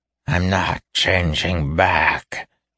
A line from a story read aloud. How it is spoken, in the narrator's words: he growled in horror